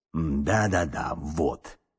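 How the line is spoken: Mumbling. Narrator (Russian): бормотал он

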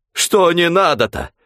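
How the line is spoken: Angry exclamation. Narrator (Russian): Сердито воскликнул Захарыч

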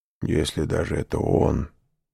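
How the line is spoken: Grumbling. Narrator (Russian): проворчал хозяин

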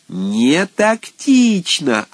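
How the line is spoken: Yelling. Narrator (Russian): орал Козьепупов

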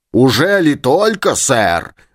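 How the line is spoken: Yelling. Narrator (Russian): завопил Челленджер

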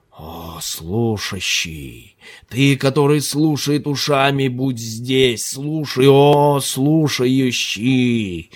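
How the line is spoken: Moaning. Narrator (Russian): Ханифа стонала

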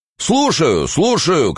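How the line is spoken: Deep voice shouting. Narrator (Russian): кричал басок в яме

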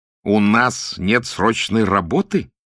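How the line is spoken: Almost angry exclamation. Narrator (Russian): едва ли не гневно воскликнул он

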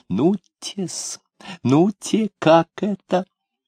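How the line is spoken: Sudden small trembling laugh. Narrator (Russian): И вдруг засмеялся мелким смехом, весь вздрагивая

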